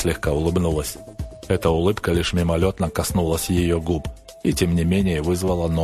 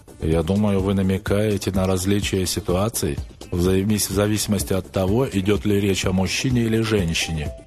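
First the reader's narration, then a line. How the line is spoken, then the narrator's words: Plain. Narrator (Russian): ответил я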